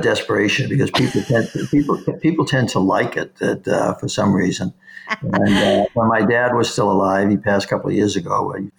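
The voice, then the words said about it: Boston accent. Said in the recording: “that Boston accent so a parent”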